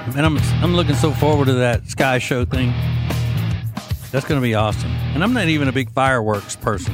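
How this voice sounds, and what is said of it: Southern US accent. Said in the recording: “this accent ... Southerners”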